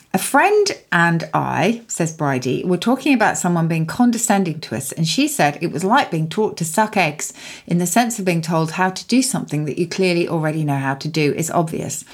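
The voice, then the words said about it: Dubious put-on Australian accent. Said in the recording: “There was a very dubious Australian accent creeping in there”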